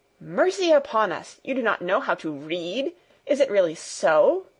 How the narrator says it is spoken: exclaimed Fräulein Rottenmeier, greatly horrified

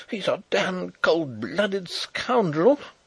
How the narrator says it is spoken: exclaimed the young officer fiercely

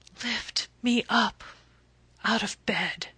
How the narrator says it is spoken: whispered

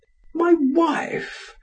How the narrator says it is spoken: exclaimed in surprise

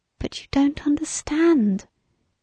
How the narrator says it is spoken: whispered passionately

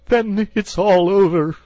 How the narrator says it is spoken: sobbed the toad, crying into the sofa cushions

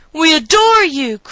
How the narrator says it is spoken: cried Benny

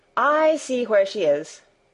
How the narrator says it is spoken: exclaimed Barbel

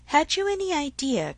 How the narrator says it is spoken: cried Harriet

